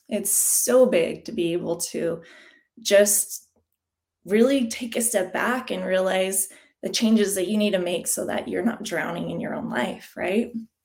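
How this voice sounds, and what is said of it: Emotional, choked-up voice. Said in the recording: “I'm sorry if I sound a little emotional”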